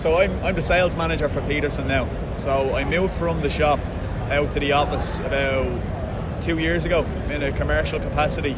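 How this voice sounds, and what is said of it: Irish accent. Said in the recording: “we love the accent ... the token Irishman”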